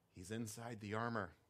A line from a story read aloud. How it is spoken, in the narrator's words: Spurgeon cupped his hand and whispered